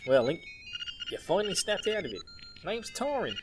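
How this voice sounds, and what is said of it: Put-on Australian accent. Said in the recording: “I'm doing an Australian accent.”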